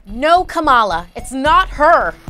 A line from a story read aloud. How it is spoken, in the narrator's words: Elena shouted